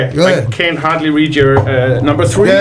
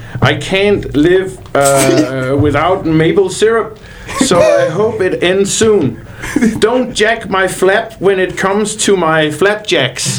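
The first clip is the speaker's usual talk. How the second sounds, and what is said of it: Put-on Canadian accent. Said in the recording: “I try to do my best Canadian accent”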